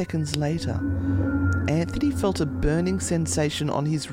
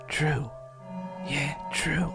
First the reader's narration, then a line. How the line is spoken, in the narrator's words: in a whisper